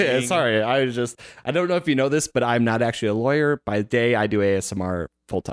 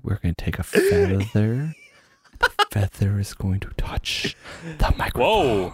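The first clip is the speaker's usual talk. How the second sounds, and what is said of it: ASMR-style whisper. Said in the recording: “I'm going to whisper. ... super ASMR”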